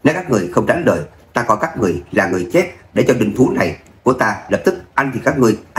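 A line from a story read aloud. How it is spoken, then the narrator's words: Mocking with soft laugh. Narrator (Vietnamese): Người trên người cự điểu cười khẽ một tiếng, trêu tức nói ra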